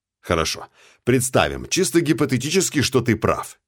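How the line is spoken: Exclamation. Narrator (Russian): воскликнул

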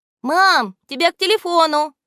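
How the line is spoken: Shout. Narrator (Russian): крикнула Наташа

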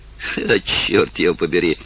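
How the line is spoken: Laughing. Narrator (Russian): засмеялся Коннель

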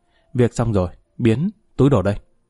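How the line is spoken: Quiet. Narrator (Vietnamese): người bạn nói khẽ

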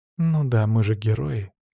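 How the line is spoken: Heavy sigh. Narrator (Russian): тяжело вздохнула Мира

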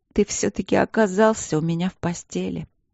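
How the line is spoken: Hoarse wheeze, croaking laugh. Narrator (Russian): просипела я и рассмеялась, хриплым, каркающим смехом

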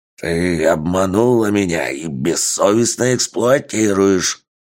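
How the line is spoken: Creature's angry growl. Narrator (Russian): Злобно прорычало существо

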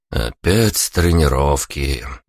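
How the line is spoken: Drawled. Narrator (Russian): протянул я

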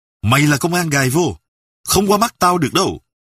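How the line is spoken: Barking shout. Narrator (Vietnamese): Sâm quát

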